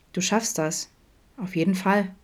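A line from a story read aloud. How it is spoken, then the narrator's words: Emphatic. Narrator (German): meinte Vincent eindrücklich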